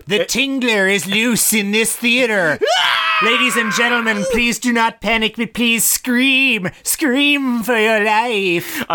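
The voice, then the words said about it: Imitates another person's voice. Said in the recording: “his Vincent Price impersonation... Still not very good... It's an excellent accent.”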